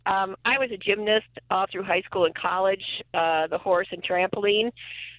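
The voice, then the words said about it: Hoarse, failing voice. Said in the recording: “I'm losing my voice a little”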